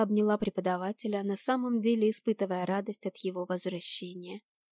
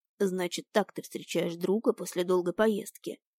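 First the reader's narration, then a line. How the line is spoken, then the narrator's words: Grumbling. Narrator (Russian): проворчал анимаг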